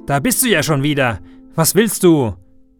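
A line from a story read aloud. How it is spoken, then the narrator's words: Angry shout. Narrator (German): Wütend ruft er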